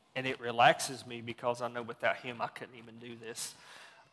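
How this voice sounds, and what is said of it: Mild Southern US accent. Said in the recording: “you can tell I'm not from here. I'm from the South, as you can kind of tell. My accent has really shrunk since I've been up here.”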